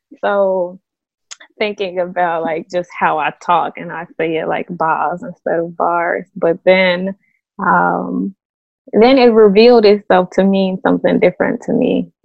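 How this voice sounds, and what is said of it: Chicago accent with Mississippi roots. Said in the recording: “very Chicago ... by way of ... Mississippi accent”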